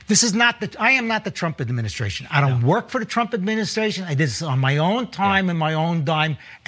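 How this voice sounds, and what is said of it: New York accent. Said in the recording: “I love his New York accent.”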